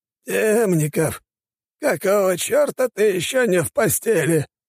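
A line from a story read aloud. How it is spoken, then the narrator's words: Hoarse wheeze. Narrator (Russian): прохрипел он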